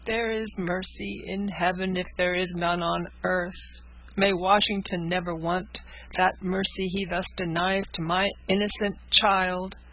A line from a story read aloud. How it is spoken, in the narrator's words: sobbed the father